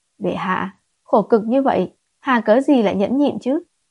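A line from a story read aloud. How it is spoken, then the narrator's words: Seductive breathy whisper, laughing. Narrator (Vietnamese): Hắn nhếch môi bật cười, cố ý áp sát bên tai nàng thổi khí, dùng ngữ khí mị hoặc nhất nói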